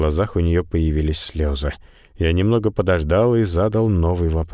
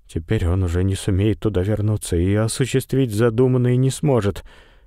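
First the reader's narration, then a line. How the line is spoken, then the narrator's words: Sad. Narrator (Russian): Сара Берстоу грустно промолвила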